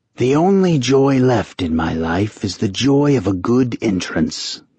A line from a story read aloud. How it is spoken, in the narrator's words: the eldest rasped